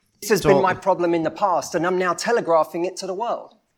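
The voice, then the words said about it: Speaks with a noticeable accent. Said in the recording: “it's that goddamn accent”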